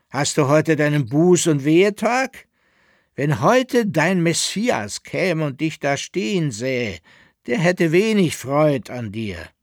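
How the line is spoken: Called out. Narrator (German): rief er

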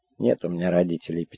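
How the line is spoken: Sad reply. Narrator (Russian): печально ответила Таня

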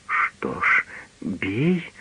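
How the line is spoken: Whisper. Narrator (Russian): прошептала она

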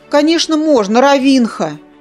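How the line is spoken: Cooing. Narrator (Russian): проворковал Зар

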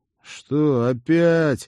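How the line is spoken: Resigned, mocking question. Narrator (Russian): обреченно-насмешливо поинтересовался с порога Тед

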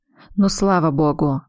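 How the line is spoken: Relieved sigh. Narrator (Russian): вздохнул Роман

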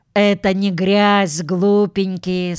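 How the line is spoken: Plain. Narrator (Russian): сказала Джуди

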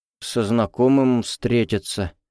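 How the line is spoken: Evasive mumbling, lying. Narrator (Russian): промямлил Кобзев, явно начиная врать

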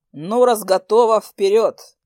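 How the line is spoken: Chuckling. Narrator (Russian): хохотнул он

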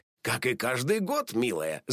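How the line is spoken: Laughing. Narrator (Russian): засмеялся папа

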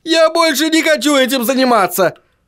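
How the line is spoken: Yelled. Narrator (Russian): завопил Чарли

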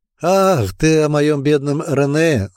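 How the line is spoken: Laughing. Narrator (Russian): рассмеялась Ирмингрен

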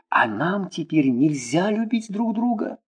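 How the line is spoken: Whispered. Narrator (Russian): Шепнул

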